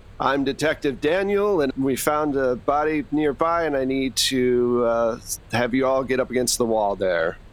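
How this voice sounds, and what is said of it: Put-on American accent. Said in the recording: “In my best American accent.”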